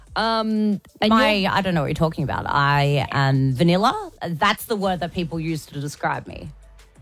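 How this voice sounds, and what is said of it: Sarcastic tone. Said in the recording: “clearly I'm being sarcastic.”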